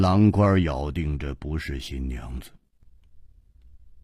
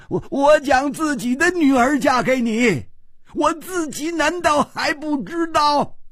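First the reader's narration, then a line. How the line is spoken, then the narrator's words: Angry roar. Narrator (Chinese): 秋瓷王又怒吼道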